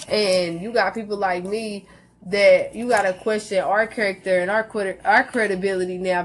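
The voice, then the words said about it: Natural accent that doesn't sound white. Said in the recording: “doesn't sound white... I really sound like this is not a fake accent. This is not something I put on for show”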